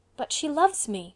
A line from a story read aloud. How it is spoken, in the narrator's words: cried the young man